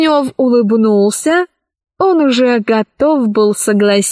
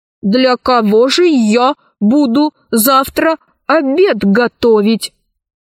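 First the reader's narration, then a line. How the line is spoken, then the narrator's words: Stern question. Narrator (Russian): спросил он строго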